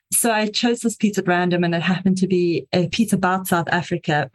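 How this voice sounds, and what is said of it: South African accent. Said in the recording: “I am South African, if you can hear the slightly strange accent.”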